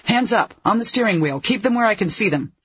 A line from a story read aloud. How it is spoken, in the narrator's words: she barked